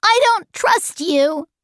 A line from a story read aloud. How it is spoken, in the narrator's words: cried Charles Wallace